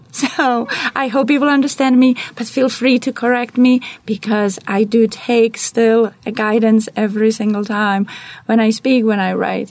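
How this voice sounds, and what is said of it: Non-native English accent. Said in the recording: “I cannot lose my accent... you will hear my accent every time we talk”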